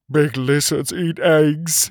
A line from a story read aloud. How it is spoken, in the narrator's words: he whimpered